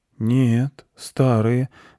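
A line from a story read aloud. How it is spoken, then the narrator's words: Confused boy. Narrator (Russian): растерянно ответил мальчик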